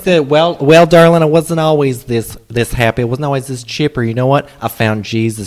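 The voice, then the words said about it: Impression of a restaurant server. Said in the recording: “maybe I might turn it over to you ... for your impression of what the”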